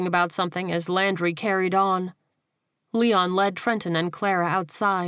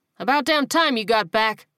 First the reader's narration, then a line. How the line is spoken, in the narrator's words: Leon barked